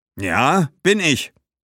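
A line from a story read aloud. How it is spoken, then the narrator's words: Wolf-like growl. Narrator (German): sagte Gaius und knurrte wie ein Wolf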